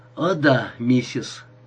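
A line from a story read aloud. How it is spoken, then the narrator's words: Strained, forced words. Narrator (Russian): выдавил из себя Джерри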